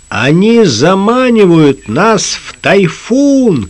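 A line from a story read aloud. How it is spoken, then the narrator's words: Shouting. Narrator (Russian): крикнул Лукас капитану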